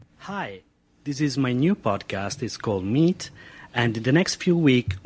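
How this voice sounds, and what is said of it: Non-native English accent. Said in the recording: “Can you hear my accent? ... Can you tell I'm not a native English speaker?”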